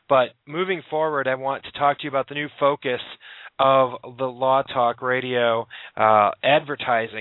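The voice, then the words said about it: Strained, fading voice. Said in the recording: “I'm losing my voice after talking to too many people on the phone... trying to keep my voice here.”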